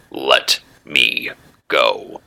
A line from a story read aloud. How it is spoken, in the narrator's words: the hero growled